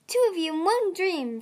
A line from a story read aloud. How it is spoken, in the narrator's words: she said happily